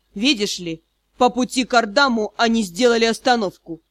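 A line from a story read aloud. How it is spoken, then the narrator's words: Muffled voice, breaking growl. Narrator (Russian): Глухой голос лорда-директора с прорывающимся рычанием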